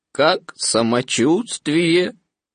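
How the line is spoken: Gloomy question. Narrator (Russian): По обыкновению уныло спросил

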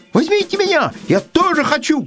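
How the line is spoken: Squirrel shouting. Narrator (Russian): крикнула белка

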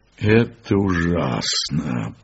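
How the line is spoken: Pained voice. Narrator (Russian): произнес я больным голосом

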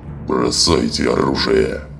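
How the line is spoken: Growled. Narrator (Russian): прорычал Скар

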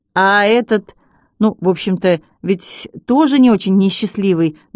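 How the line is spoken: Uncertain. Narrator (Russian): неуверенно сказал Арбуз

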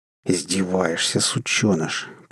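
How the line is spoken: Through gritted teeth. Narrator (Russian): процедил Хантер

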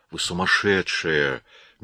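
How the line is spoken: Soft. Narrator (Russian): мягко проговорил он

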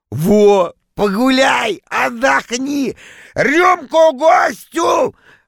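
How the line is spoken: Joyful loud shout. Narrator (Russian): радостно закричал он на весь зал

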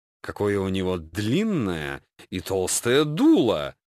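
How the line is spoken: Languid suggestive drawl. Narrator (Russian): томно протянула одна из девушек, тонко намекая

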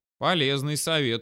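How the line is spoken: Snort. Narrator (Russian): хмыкнул я

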